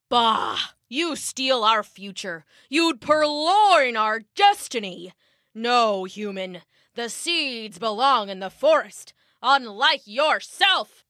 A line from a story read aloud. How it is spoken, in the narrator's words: the trees roared, and the forest shook with thunder